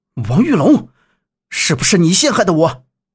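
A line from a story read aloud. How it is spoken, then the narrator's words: Angry. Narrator (Chinese): 杨木……怒道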